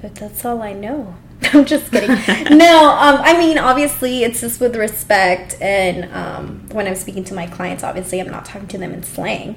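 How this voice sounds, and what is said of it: Heavy Salvadoran accent. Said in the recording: “But I still speak with a heavy accent... You do... you can speak with a heavy accent... Salvadorians”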